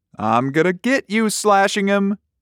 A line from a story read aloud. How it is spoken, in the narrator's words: Denny squealed